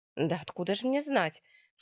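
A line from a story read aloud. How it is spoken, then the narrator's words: Irritated nurse snorting. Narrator (Russian): фыркает медсестра раздраженно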